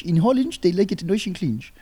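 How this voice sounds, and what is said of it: Bad put-on Dutch accent. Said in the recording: “that's a terrible accent. ... I sincerely apologize to all my Dutch friends.”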